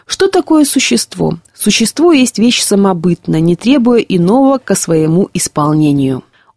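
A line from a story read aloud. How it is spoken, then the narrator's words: Said in an undertone. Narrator (Russian): сказал вполголоса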